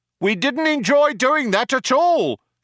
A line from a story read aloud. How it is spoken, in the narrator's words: shouted the other cop